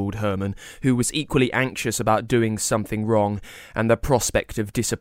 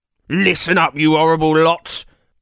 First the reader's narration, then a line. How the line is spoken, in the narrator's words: barked Professor of Heisting Jonathan Van Getaway